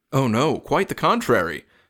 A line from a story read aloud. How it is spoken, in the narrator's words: said Buffy Bob